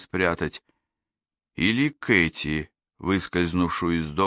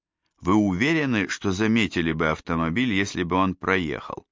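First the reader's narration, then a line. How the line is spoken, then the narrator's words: Plain question. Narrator (Russian): спросил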